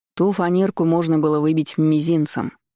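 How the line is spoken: Contemptuous snort. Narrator (Russian): с пренебрежением фыркнул Тор

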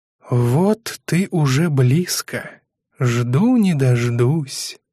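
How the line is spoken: Whisper. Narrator (Russian): прошептала провидица с мыса Бакенов

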